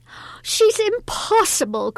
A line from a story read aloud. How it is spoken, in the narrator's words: cried the mistress